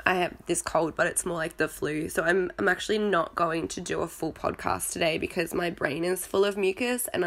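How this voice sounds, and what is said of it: Crackly, sick-sounding voice. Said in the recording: “You can probably hear my voice is very crackly. Yes, I'm sick again.”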